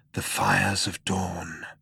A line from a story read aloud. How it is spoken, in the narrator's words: breathed Zaphod